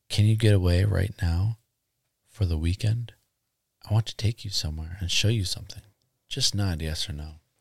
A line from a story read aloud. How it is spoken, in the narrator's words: Axelrod whispered in Ingo's ear